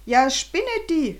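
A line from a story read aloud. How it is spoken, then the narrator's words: Angry scolding. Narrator (German): schimpfte Herr Sprüngli wütend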